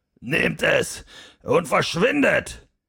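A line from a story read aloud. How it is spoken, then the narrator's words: Calling out. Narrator (German): rief er den Stegreifen entgegen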